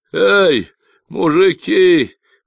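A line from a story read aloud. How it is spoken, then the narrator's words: Howled. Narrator (Russian): взвыл Майкл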